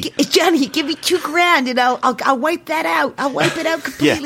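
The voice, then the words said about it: Put-on accent. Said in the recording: “you seem to be doing some sort of... ... Some sort of accent. ... you're doing that kind of way.”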